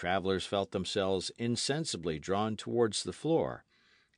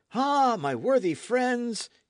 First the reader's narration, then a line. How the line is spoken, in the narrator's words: he exclaimed